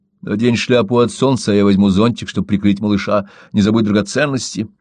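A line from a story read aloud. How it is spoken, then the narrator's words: Plain. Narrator (Russian): сказал он жене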